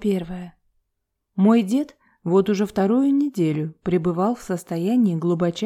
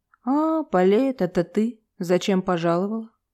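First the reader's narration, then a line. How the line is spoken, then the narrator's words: Grumbling old man. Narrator (Russian): Снова проворчал дедуля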